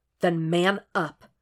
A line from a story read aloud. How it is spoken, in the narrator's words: Jeff said tightly